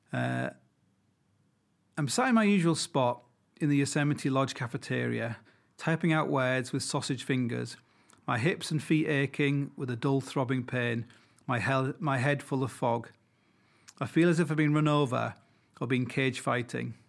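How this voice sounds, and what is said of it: Deliberate reading-aloud voice. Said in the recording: “put on my best reading voice.”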